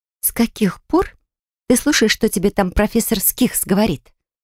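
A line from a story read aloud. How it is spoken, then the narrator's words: Sharp exhale, mocking parody. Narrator (Russian): Резко выдохнула я и затем, пародируя его тон, добавила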